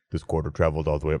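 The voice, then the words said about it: Imitates another person's voice. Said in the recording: “that's a good Javier Bardem impression”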